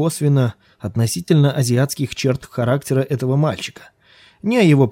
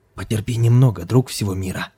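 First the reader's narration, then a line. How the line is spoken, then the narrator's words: Whisper. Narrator (Russian): шепнул он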